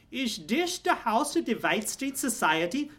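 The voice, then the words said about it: Charming German accent. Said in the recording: “She asked in a charming German accent.”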